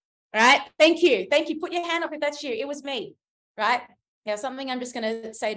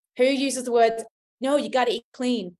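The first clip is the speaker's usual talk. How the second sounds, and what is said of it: Put-on American or Canadian accent. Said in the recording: “Sorry, in the American accent, Canadian accent,”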